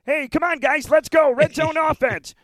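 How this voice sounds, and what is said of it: Patrick Mahomes impression, Kermit-like voice. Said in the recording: “him sounding like Kermit ... good impression”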